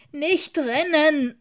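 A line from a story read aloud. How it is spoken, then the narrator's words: Calling after someone. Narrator (German): rief Frau Pepper hinter ihm her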